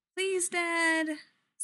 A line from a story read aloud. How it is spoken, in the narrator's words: Sammy pleads